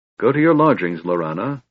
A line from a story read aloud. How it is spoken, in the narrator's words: the Speaker ordered in a tight voice